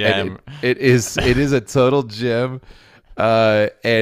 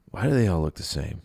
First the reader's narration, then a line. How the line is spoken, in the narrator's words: he muttered